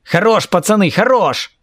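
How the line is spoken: Shouted by leader. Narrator (Russian): закричал Кирилл, тот самый главный

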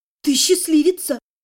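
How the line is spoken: Proud breathless exclamation. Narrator (Russian): выдохнула, гордясь своей подругой

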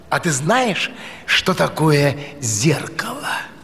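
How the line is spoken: Plain question. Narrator (Russian): спросил Аладдин

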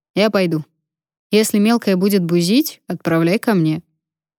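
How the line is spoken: Snort then mutter. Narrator (Russian): Потап хмыкнул и пробормотал

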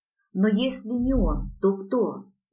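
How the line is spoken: Plain. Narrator (Russian): спросила я

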